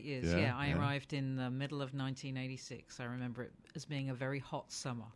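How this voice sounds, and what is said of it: English accent. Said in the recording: “She is from England, as you can hear from her voice”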